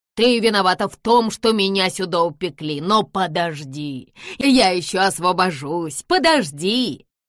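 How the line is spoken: Angry grumbling. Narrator (Russian): злобно ворчащую женщину

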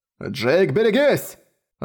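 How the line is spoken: Urgent shout. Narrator (Russian): выкрикнул командир

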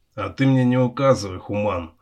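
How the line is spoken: Dwarf growling back. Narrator (Russian): рыкнул в ответ гном

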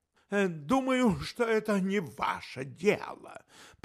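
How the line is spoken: Through gritted teeth. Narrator (Russian): процедил инспектор

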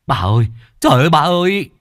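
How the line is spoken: Crying, wailing. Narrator (Vietnamese): khóc lóc

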